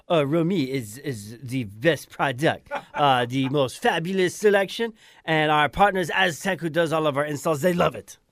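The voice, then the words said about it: Put-on Croatian accent. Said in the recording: “Alex in my Croatian accent.”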